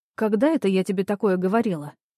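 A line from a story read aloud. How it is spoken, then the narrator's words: Forced calm, hint of displeasure. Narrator (Russian): Она пыталась, чтобы вопрос прозвучал спокойно, но нотки недовольства все равно проскальзывали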